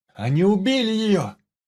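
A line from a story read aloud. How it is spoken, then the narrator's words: Shouting from another room. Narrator (Russian): кричал Андрей из подсобки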